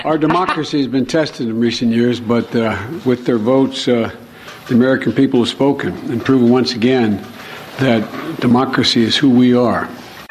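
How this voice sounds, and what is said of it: Slightly hoarse voice. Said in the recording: “Excuse me, a little hoarse.”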